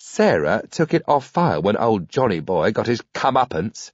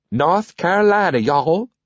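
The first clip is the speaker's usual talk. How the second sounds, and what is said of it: Terrible put-on southern accent. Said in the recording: “terrible southern accent”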